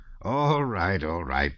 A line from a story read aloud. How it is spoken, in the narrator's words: interrupted the prince, and laughing in his unnatural way